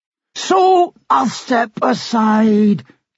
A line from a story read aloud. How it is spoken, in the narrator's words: King Robbie cried